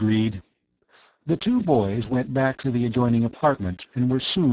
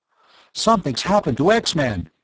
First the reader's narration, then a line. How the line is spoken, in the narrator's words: Tom cried